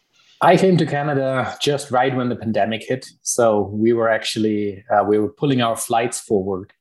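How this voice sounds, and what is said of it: German accent. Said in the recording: “I can tell by your accent, ... you're from Germany”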